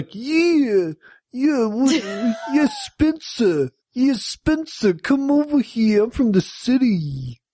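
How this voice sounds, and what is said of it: Put-on thick Brooklyn accent. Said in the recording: “is from New York. I don't know if you could tell by her accent. ... that thick Brooklyn accent”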